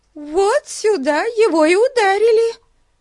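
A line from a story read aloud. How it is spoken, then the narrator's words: Bitterly triumphant exclamation. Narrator (Russian): воскликнула Бетси с горьким торжеством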